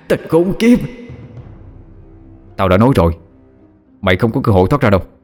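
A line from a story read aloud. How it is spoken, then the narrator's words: Demonic howl. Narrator (Vietnamese): Con quỷ gào lên một tiếng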